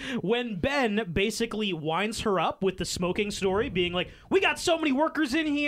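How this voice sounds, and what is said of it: Usual voice. Nothing is said of it.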